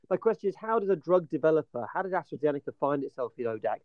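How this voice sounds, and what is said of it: Charming British accent. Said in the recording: “British charming accent”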